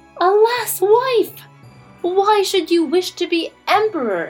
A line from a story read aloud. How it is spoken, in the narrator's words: exclaimed Jimmy